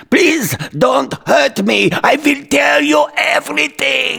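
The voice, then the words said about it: Put-on archaic-sounding accent. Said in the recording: “What archaic accent is that?”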